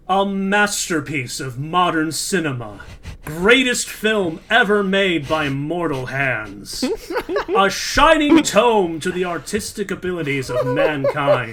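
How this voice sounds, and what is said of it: Dramatic movie trailer voice. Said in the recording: “my best like trailer voice”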